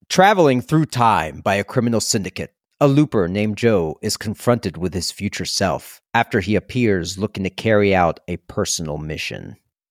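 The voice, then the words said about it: Dramatic movie trailer narrator voice. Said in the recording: “put on my best movie voice.”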